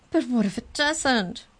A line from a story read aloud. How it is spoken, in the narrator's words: cried